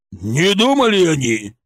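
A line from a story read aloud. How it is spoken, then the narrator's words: Furious roar. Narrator (Russian): взревел Шаповалов, побагровев еще больше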